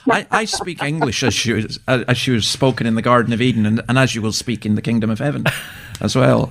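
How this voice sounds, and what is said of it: Scottish accent. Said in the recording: “I just love hearing your accent, of course. It's lovely to hear that Scottish accent.”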